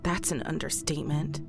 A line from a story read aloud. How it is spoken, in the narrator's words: Rose said under her breath